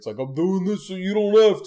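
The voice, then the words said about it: Rocky Balboa character impression. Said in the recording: “flawless Rocky impersonation”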